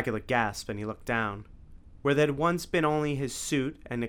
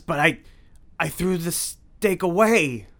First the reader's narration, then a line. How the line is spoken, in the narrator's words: gasped